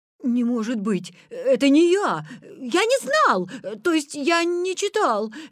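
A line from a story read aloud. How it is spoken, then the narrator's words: Flustered babbling. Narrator (Russian): лепетал Витя, стоя перед хохочущими одноклассниками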